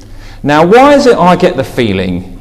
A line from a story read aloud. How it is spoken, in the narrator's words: whined